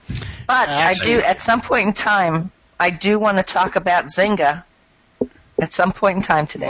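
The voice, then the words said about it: Hoarse, worn-out voice. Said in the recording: “my voice is kind of shot”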